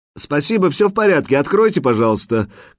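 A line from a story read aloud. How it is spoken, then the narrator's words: Shouting. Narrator (Russian): крикнул Лейкон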